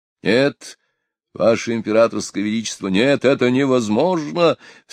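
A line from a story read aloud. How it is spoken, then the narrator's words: Exclaiming. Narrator (Russian): в свою очередь воскликнул Потемкин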